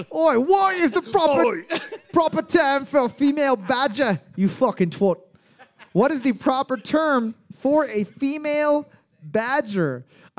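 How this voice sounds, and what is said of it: Put-on mixed English accents. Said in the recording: “in an English accent ... I think I just did every single English accent known to mankind. I went from Liverpool. ... You went Cockney a bit. ... Made a quick Derby. Stop in London. Did some of the Queen's Own. ... mostly London. Just a lot of London-based garbage language.”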